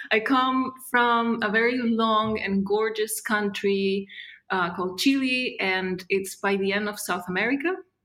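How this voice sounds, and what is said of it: Non-native English accent. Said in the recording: “if I have an accent, it's because I don't speak English. I mean, I do, but it's not my main language”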